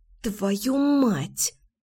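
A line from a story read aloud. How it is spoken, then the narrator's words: Angry hiss. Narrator (Russian): в сердцах прошипела я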